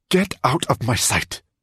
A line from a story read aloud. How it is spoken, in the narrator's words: Roxanne snapped at him